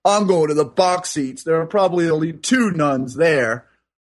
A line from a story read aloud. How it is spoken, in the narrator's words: the third diehard fan says angrily and loudly